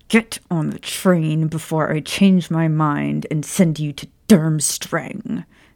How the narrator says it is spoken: she said through clenched teeth

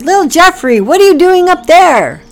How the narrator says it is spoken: Packy shouted

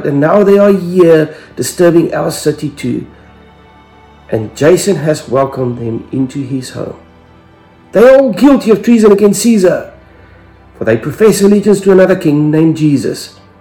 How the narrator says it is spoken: they shouted

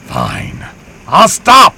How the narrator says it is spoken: he yelled back

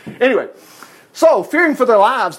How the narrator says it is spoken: the desperate sailors shouted to the gods for their help

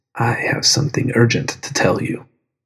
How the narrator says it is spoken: it called to me in a silent voice

